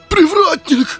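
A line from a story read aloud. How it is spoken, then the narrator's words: Frightened outcry. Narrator (Russian): выкрикнул он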